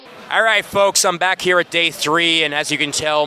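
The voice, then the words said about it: Haggard, worn-out voice. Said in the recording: “my voice is haggard”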